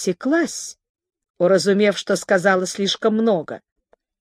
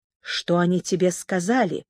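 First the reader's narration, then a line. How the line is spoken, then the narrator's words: Quiet question. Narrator (Russian): тихо спросил он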